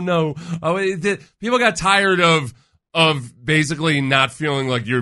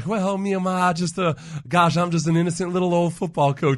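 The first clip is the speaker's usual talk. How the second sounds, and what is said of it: Mock Southern belle voice. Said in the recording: “my Southern Belle impression”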